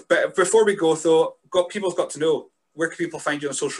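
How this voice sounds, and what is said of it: Northeast Scottish accent. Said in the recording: “I was a bit afraid of the accent, but I got used to it ... I'm from like the northeast of Scotland ... it's a little bit softer to the ear”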